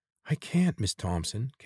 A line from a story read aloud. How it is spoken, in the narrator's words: Kate pleaded